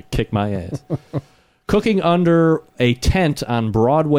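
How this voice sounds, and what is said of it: Usual voice. Nothing is said of it.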